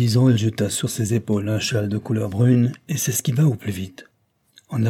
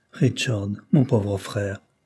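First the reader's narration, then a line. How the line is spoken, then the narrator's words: Moved plaintive sigh. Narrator (French): soupira-t-elle d'une voix émue et plaintive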